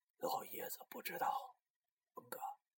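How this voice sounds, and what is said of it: Speaking quietly, in a low voice. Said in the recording (Chinese): “小声的说着”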